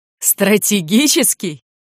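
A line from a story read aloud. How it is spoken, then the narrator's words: Laughing loudly. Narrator (Russian): расхохотался капитан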